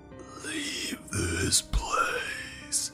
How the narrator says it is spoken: It said, in a demonic and ancient voice

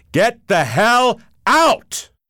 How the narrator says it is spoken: bellowed

